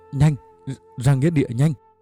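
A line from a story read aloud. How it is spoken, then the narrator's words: Breathless stammering. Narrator (Vietnamese): Anh Trài thở không ra hơi, chỉ lắp bắp nói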